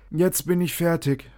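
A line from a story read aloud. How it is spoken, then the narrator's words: Panting. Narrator (German): sagte er japsend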